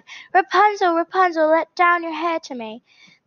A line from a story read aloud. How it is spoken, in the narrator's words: cried